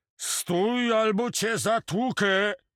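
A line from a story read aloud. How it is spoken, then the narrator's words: Shouting. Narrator (Polish): krzyknął do uzbrojonego baska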